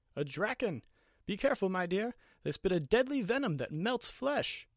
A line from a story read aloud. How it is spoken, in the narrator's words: Gelencio exclaims